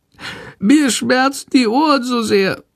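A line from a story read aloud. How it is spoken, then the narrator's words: Meek sickly whimper. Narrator (German): jammert die kranke Fledermaus ganz kleinlaut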